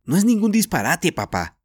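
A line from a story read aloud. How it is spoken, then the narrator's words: Indignant shout. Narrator (Spanish): gritó Jorge indignada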